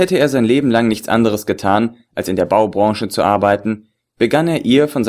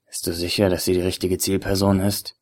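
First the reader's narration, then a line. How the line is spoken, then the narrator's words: Whispered into phone. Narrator (German): flüsterte er in sein Handy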